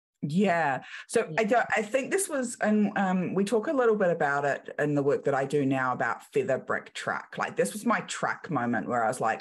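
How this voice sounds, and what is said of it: Strong New Zealand accent, squashed vowels. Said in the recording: “your accent just kicked in hard ... We squash all our vowels in New Zealand.”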